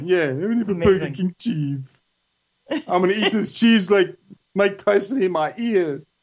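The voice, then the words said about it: Imitates another person's voice. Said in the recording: “best impression ... It just sounds exactly like ... You thought Evander Holyfield was right here in the studio”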